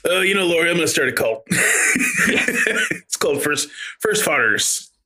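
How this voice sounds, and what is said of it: Generic dad impression voice. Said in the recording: “This is my dad impression of your dad. I never met him.”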